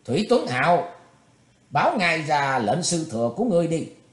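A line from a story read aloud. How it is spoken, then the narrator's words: Chuckle, then sudden shout. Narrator (Vietnamese): Bạch diện thư sinh cười khùng khục trong họng, đột nhiên quát lên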